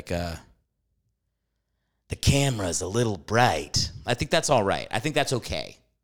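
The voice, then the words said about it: Jack Nicholson impression. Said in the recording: “I can do a decent Nicholson ... How's my impression for you? Is it good? I think I can do an okay Nicholson.”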